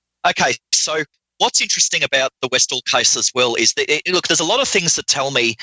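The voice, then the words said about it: Noticeable foreign accent. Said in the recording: “If you people can handle my accent. ... We can handle the accent.”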